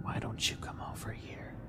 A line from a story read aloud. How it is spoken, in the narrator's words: he whispered again